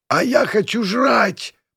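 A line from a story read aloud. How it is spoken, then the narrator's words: Hoarse rasp. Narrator (Russian): прохрипела Виолика, чей голос пребывал явно не в лучшей форме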